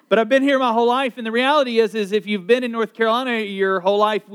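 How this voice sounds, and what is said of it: Southern US, North Carolina accent. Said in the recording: “I'm a North Carolinian ... I say I try to hide my accent, but it's there. And if you're not from North Carolina, you're like, you're a Southerner.”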